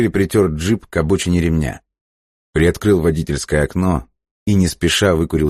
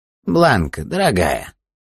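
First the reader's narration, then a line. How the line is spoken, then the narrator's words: Creaky voice. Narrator (Russian): проскрипел Риган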